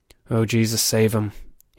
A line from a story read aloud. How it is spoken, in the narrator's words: he muttered under his breath